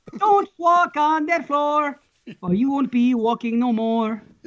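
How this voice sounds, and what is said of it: Put-on French Canadian accent. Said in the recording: “He's even got a little bit of an accent there. ... it's French Canadian, but it's still a good accent.”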